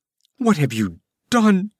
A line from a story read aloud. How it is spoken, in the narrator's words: cried Taramis